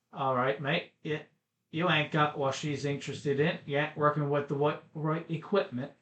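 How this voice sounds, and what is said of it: Poor British accent, sounds Australian. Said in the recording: “That's my terrible British accent for today... I think that went garnered more Australian accent”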